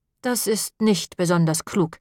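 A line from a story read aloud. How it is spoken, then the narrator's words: Plain. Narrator (German): sagte Moppel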